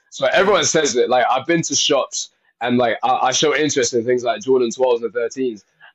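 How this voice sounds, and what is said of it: Slight foreign accent. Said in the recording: “I'm hearing a little bit of an accent, man.”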